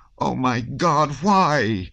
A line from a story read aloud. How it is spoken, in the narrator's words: Nicholas cried in despair